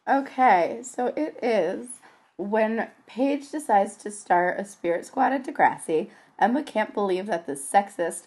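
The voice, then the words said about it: Croaky, strained voice. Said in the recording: “I lost my voice ... she's gonna be a little croaky for this episode”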